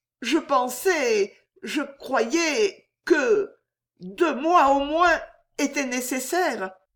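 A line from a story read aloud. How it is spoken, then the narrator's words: Girl stammering. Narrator (French): balbutiait la jeune fille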